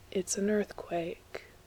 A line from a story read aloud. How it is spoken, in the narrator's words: he said, nearly too quietly to be heard